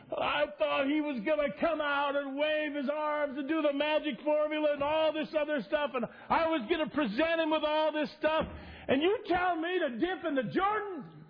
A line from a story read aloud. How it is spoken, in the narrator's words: He's just yelling and screaming